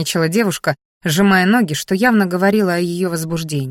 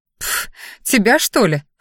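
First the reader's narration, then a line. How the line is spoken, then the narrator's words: Snorted. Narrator (Russian): фыркнула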